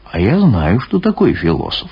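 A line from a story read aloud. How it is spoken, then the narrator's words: Calm interruption. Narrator (Russian): спокойно прервал Алексей Тимофеевич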